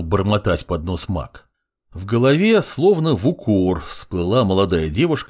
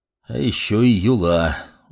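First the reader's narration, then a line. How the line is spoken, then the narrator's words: Sigh. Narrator (Russian): вздохнул маг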